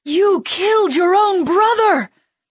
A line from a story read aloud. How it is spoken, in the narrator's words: someone screamed